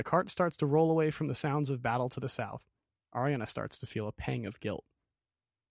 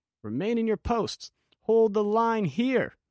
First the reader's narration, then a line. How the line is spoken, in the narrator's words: Sir Patricia's voice clearly above the rest as she shouts